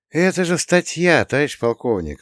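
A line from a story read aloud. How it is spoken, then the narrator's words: Sigh. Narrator (Russian): вздохнул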